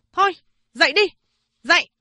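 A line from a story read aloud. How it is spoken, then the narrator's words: Shouting. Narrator (Vietnamese): Chị ta quát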